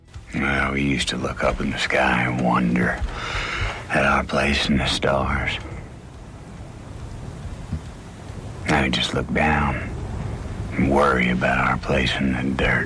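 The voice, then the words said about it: Texas accent. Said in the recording (Catalan): “amb un accent de Texas”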